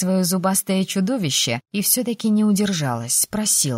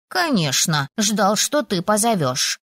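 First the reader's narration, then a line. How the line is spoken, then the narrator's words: Snort. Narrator (Russian): фыркнул страж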